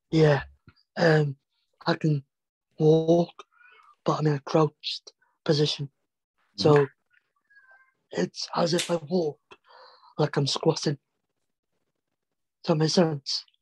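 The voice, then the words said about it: Noticeably atypical voice quality. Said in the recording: “As you can tell, my voice is different because I've got a shortened neck.”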